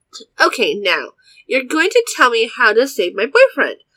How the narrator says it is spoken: I snapped

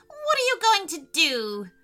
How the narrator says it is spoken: he bawled

